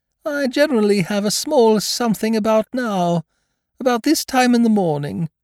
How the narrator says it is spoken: he went on dreamily

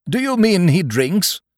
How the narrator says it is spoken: cried the squire

